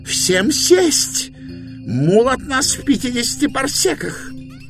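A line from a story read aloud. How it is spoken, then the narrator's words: Shrill yell over noise. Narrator (Russian): Пытаясь перекричать общий шум, Индбур визгливо завопил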